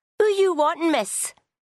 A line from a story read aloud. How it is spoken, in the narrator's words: cried, running